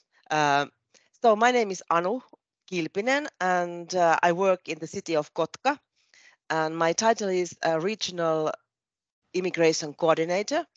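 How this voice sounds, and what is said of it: Nasal, congested voice. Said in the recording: “my voice is a little bit uh, nasal because I have a bad flu during the weekend.”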